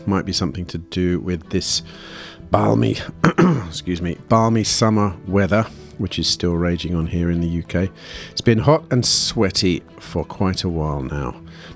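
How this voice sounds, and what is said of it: Strange-sounding voice, sore throat. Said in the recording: “my voice sounds a little strange ... a rather nasty throat infection”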